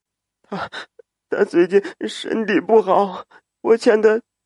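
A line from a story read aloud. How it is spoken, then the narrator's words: Sobbing. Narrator (Chinese): 陆小婵抽泣着说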